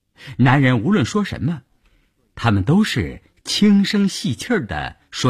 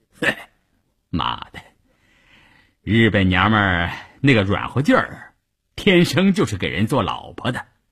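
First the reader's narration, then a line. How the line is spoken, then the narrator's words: Laughing. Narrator (Chinese): 关山林 笑着对一旁的三五九旅副旅长谭之林说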